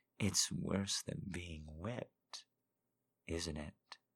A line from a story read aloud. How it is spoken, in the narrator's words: She purred under the kisses, being tortured with pleasure